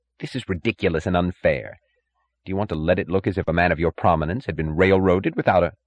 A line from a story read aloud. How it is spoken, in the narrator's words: The third and youngest judge, who had acted as prosecutor, snapped impatiently